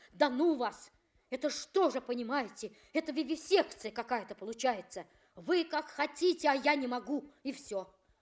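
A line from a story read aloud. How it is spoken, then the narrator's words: Excited, angry reply. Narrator (Russian): Он отвечал возбужденно, сердито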